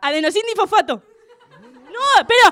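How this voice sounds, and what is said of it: Shouting. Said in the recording (Spanish): “No grites.”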